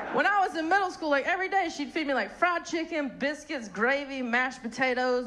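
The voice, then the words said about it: Southern US accent. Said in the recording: “hence the very sophisticated accent. I'm from North Carolina.”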